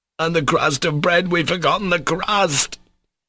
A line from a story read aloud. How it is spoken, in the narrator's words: he cried suddenly in dismay